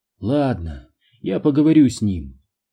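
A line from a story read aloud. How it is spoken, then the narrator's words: Weary sigh. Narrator (Russian): устало вздохнула она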